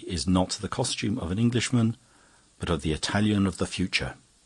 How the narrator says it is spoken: answered Ezra gravely

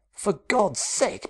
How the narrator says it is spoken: Peterson exclaimed

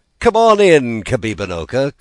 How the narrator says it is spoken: called Shingebiss merrily

